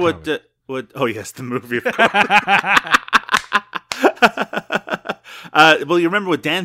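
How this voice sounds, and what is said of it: Usual voice. Nothing is said of it.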